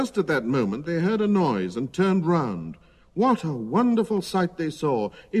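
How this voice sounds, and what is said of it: Usual voice. Nothing is said of it.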